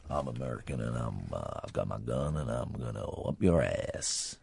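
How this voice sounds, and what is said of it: Put-on American accent. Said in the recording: “That's quite a good American accent, isn't it? ... needs a little work”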